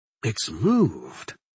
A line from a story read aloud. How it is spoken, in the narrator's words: I muttered